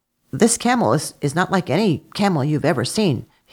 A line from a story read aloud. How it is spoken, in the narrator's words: he replied